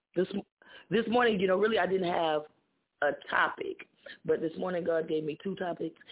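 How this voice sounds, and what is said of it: Troubled, strained voice. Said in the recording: “Excuse my voice. I've been battling with this voice this morning.”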